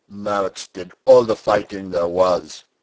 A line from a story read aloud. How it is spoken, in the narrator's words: said Peter sulkily